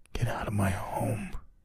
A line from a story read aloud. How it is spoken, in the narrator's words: in his weak voice he calmly said